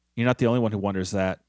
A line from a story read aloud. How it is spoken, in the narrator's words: Felicia replies, her voice sounding dejected